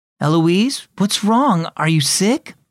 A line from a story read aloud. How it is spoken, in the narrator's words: Mom asked anxiously